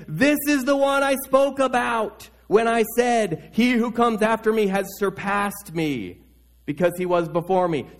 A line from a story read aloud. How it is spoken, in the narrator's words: he cried out, saying